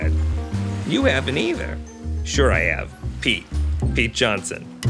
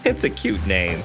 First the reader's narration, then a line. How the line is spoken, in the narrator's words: she laughed